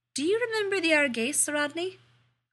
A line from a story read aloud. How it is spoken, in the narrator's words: Elizabeth asked sweetly